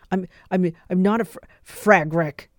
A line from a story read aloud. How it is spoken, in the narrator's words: he snapped, stammered, hands balled into fists